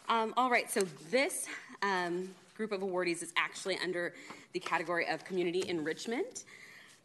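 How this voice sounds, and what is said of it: Out of breath, panting speech. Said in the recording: “I'm a little out of breath, you guys.”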